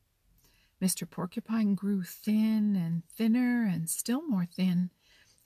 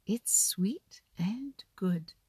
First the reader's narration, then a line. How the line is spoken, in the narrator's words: whispered Sister Southwind